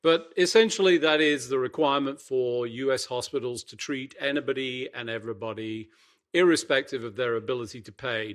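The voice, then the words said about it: Unusual foreign accent. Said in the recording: “you said EMTALA weirdly, with this weird accent of yours”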